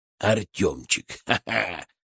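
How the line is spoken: Snort inside one's head. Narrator (Russian): хмыкнул у меня в голове Фырк

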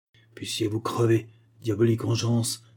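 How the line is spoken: Grandfather exclaiming. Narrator (French): s'écria mon grand-père

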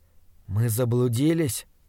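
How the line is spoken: Whispered. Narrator (Russian): прошептал я

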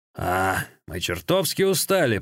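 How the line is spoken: Grumbling. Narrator (Russian): проворчал Сюэба

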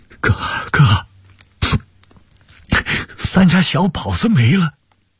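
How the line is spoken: Crying. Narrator (Chinese): 王俊山哭着说

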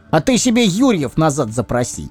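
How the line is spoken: Sudden snort. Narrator (Russian): Ни с того ни с сего хмыкнул святополк Туровский

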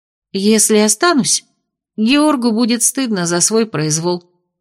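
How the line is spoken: Timid suggestion. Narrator (Russian): робко предположила

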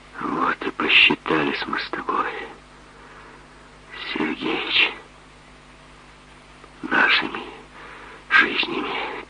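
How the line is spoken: Quiet, strained speech. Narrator (Russian): тихо, с трудом сказал Тимофей

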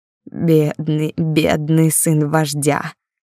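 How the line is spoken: Hoarse laughter. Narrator (Russian): хрипло смеялась

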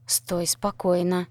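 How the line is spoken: Groom's hiss. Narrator (Russian): прошипел жених

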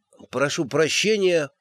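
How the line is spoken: Muttered. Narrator (Russian): пробормотал он

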